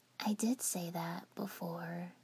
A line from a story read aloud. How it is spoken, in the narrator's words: Yukie whispered